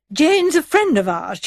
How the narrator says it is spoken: Charmian broke in impatiently

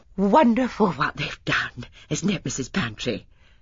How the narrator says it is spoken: panted Mrs

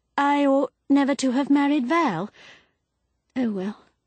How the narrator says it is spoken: sighed abruptly

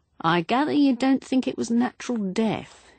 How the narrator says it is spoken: he said dryly

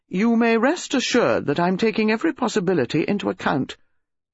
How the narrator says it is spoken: He said stiffly

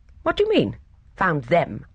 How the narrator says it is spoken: Mildred Street said sharply

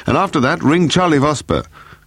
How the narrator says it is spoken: Paul shouted

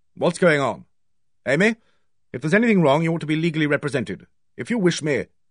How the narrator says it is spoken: He said sharply

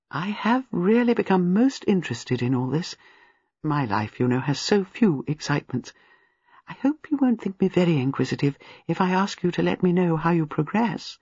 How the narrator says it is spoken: Miss Marple said gently and apologetically

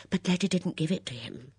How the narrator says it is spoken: Miss Bunner put in breathlessly

